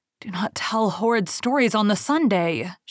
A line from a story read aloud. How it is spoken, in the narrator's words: she pleaded